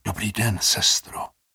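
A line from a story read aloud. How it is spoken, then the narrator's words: Whispered. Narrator (Czech): zašeptal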